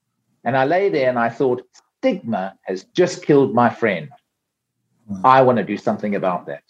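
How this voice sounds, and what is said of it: South African accent. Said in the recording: “from listening to your accent, you are South African ... I have not lost my South African accent”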